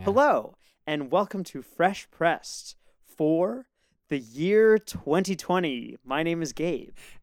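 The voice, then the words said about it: Radio voice with hesitant, strange cadence. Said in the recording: “I was dropping into my radio voice ... it sounded like you paused again, hesitantly ... With a strange cadence that is... strange.”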